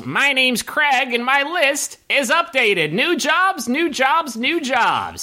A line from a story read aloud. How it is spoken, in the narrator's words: the gnome yells